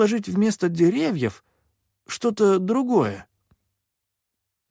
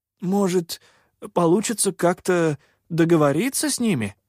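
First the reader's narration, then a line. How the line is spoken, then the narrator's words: Uncertain suggestion. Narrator (Russian): неуверенно предположил кто-то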